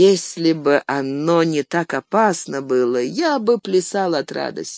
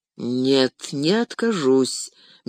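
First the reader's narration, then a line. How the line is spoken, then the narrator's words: Slow. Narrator (Russian): медленно произнес Фродо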